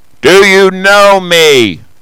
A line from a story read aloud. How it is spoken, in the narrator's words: the fellow shouted aloud